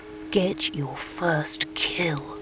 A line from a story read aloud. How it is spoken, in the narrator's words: Jeremy whispered